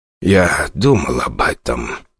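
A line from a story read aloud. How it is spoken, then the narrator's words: Heavy sigh. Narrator (Russian): тяжело вздохнул Озеров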